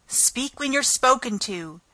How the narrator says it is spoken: the Queen sharply interrupted her

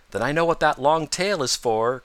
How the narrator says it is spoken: cried Peter

